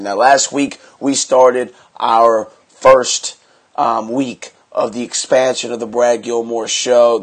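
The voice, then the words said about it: Stuffy, congested voice. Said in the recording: “I have a cold. I've had a cold this whole week.”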